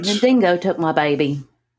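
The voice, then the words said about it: Put-on Australian accent. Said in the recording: “I don't do well with the Australian accent. ... That wasn't bad.”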